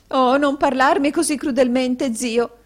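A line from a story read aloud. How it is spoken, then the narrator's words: Sobbing. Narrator (Italian): singhiozzò la signora Kenwigs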